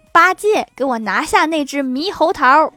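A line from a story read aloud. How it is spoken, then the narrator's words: Sudden shout. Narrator (Chinese): 突然，唐僧大喊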